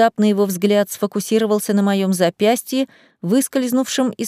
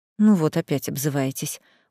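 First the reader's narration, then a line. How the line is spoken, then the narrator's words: Weary sigh. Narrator (Russian): устало вздохнул мужчина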